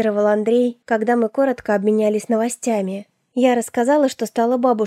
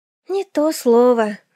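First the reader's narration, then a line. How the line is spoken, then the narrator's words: Sighing. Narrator (Russian): вздохнула я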